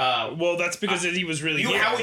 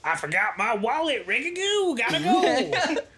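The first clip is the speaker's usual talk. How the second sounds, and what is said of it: Imitates another person's voice. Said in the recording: “Your guys' Jack Black impressions are spot on.”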